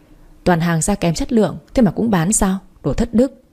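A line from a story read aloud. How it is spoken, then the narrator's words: Loud laughing speech. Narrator (Vietnamese): Nó cười lớn rồi nói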